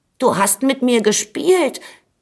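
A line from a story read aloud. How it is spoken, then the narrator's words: Calling out. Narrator (German): rief da der Schwelberich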